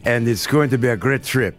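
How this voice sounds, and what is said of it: Put-on French accent. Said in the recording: “That was the French accent.”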